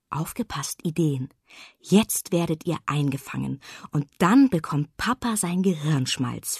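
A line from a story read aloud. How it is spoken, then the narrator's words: Contented whisper. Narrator (German): flüsterte sie, zufrieden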